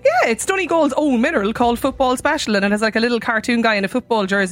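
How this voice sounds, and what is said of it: Irish Leitrim brogue. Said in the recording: “he likes my accent... that lovely Leitrim brogue”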